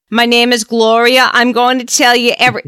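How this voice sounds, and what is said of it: Put-on New York accent. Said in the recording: “I go into New York accent... please speak to me in the tone of my people”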